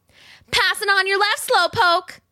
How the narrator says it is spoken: yelled, shrieking with laughter even though her lungs burned with the effort

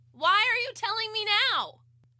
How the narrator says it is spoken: I yelled back

